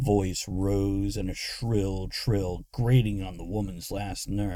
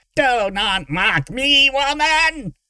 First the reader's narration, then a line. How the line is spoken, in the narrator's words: Derek screeched